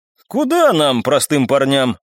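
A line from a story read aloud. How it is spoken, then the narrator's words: Laughing. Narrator (Russian): рассмеялся я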